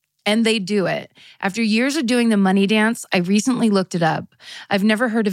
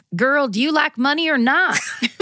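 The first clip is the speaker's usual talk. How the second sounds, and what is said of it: Put-on thick Southern accent. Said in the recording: “what my grandma says in her thick Southern accent. ... I don't know if that was Appalachian per se, just Southern.”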